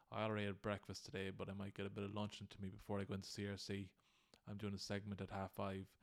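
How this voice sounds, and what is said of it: Groggy, tired-sounding voice. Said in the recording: “I'm a bit groggy today and you can hear it in my voice ... I'm sure you can hear it in my voice. I just feel a bit tired.”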